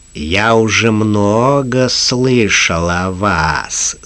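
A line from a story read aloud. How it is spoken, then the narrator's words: Melodious voice. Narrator (Russian): сказал щитовод певучим голосом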